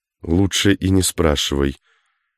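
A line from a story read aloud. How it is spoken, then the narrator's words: Whisper. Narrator (Russian): почему-то шепотом ответил Кашин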